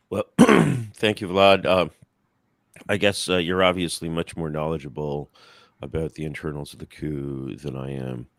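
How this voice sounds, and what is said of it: Slightly hoarse voice. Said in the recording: “my voice is a little hoarse. I just had my 50th birthday party”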